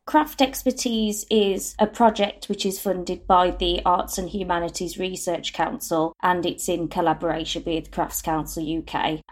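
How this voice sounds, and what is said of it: Birmingham accent. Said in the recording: “it's lovely to hear a Birmingham accent”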